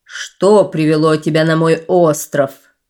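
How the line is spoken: Chief's menacing question. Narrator (Russian): грозно спросил вождь

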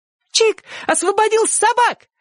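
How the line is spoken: Fearless shout while dragged. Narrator (Russian): еще раз бесстрашно крикнула Сонька, пока мать тащила ее в дом

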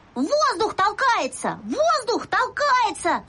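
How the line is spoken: Shouting. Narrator (Russian): закричал я

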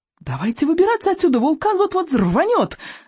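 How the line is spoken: Screaming. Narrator (Russian): завопила Камикадзе

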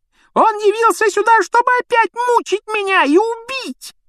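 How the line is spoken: Sudden yell. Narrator (Russian): неожиданно завопил Петтигрю

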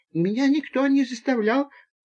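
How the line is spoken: Timid babble. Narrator (Russian): пролепетал Боря

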